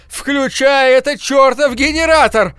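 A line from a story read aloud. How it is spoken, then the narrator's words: Throat-straining yell. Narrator (Russian): заорал я так громко, что заболело в горле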